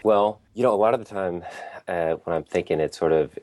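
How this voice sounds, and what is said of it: Congested head-cold voice. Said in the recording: “I have a head cold”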